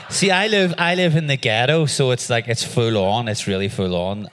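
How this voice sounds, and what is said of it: Thick Belfast accent, fast speech. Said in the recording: “He'd been in Belfast for so long ... your accent is so much thicker than it was 2 years ago, and you're talking so much faster than you used to ... I have no idea what you said”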